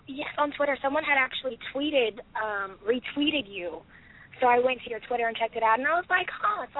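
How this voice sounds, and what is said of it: Sick, rough-sounding voice. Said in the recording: “I'm actually kind of sick, so I apologize. My voice sounds horrible.”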